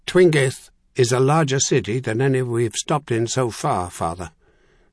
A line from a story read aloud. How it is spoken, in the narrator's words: Zhu said in his calmest, most reasonable tone